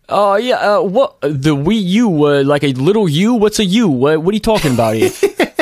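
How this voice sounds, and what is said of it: Bad put-on New York accent. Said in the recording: “your New York accent is the worst ever.”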